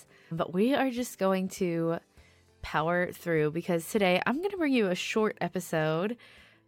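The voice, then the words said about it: Unwell, strained voice. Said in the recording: “Today, I am feeling not my best, so I'm sorry if you can hear that in my voice ... My voice kind of needs it to be short”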